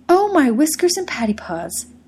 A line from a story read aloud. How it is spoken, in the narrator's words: he exclaimed, as soon as he was in a fit state to exclaim anything at all